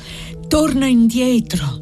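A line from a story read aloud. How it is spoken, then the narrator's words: Breathless girl. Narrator (Italian): disse la fanciulla con voce ansante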